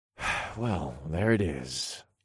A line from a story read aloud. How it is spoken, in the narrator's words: I sighed